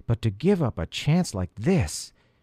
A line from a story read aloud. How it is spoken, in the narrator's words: He groaned